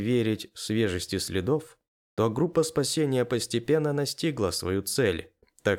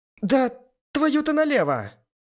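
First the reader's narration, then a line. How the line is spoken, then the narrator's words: Shouted into the distance. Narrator (Russian): крикнула куда-то в сторону леса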